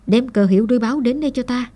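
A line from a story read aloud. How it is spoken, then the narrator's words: Shouted order. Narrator (Vietnamese): Khoan Triệt quát tên quan cầm cờ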